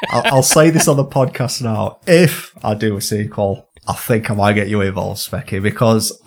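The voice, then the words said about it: Northern English accent. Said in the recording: “my lovely northern accent”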